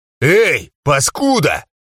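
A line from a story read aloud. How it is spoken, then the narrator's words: Shout. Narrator (Russian): крикнул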